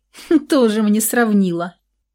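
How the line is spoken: Mocking snort, pleased. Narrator (Russian): насмешливо фыркнула Александра, довольная полученным эффектом

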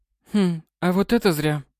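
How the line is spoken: Thoughtful. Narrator (Russian): выдала она задумчиво

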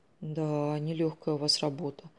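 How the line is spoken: Tired, smiling. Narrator (Russian): устало улыбнулась Ольга

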